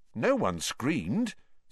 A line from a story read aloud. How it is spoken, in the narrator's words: said Ron, more nervously still